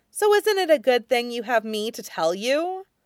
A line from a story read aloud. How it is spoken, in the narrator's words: Ming Chui groans quietly